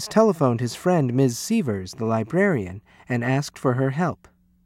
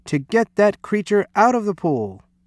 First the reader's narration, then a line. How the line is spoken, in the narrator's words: he cried